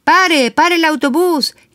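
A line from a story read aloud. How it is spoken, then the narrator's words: Shouting. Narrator (Spanish): le grita Ernesto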